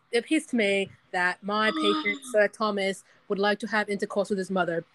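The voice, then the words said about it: Bad put-on British accent. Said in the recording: “I don't know how to do an Austrian accent. So I'm going to do a British one for the hell of it. Like a bad British one. Maybe it'll get close to Austrian.”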